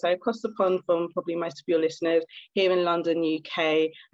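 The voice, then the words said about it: British accent. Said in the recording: “in case you haven't guessed by my accent, I'm actually from the UK”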